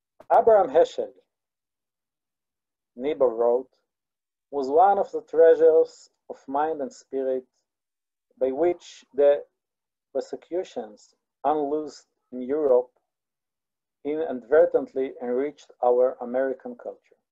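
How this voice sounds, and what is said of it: Hebrew Israeli accent. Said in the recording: “you will have to suffer my Hebrew accent, my Israeli accent.”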